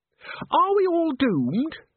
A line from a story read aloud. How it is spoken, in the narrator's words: squeaked Christine